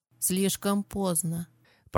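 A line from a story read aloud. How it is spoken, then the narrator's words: Girl murmuring into ear. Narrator (Russian): пробормотала девушка ему в ухо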